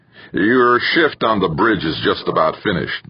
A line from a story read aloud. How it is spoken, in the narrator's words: said gruffly